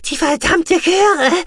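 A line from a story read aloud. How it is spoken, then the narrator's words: Panted. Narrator (German): keuchte Guki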